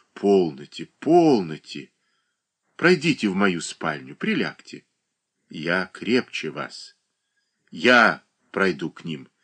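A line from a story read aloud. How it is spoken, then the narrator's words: Soft, tender voice. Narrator (Russian): проговорила Анна Васильевна таким мягким, таким ласковым голосом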